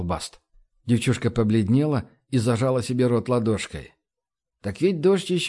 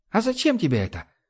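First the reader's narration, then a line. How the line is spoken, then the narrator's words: Squeaky little voice. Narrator (Russian): спросила Пэм своим писклявым голосочком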